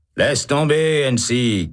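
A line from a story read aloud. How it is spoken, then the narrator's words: Shouting. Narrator (French): crie Holt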